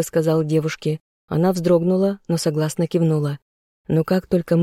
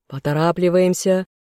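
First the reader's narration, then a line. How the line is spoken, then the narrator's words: Shouted command. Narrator (Russian): крикнул отряду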